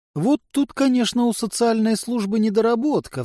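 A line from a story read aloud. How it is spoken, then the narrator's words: Sighing. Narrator (Russian): вздохнула Хелла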